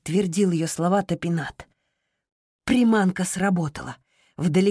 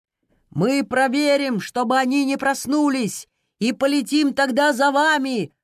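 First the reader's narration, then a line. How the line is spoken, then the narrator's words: Shouted. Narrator (Russian): прокричал архитектор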